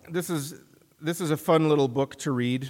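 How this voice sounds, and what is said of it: Sarcastic delivery. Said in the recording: “I say that sarcastically.”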